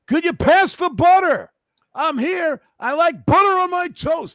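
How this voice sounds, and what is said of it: Exaggerated fake sportscaster shouting voice. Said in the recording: “He's got a fake voice. ... that guy screams at everything. ... he talks like that at home, too.”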